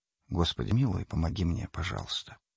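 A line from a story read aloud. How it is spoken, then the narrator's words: Whispering. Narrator (Russian): Мотоциклист прошептал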